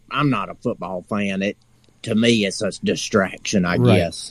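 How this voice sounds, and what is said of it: Noticeable regional accent. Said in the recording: “somehow I can pick up your accent ... Yeah, that seems to be pretty easy”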